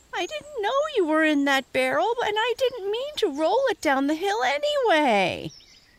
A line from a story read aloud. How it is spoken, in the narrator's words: whined Reddy once he got his voice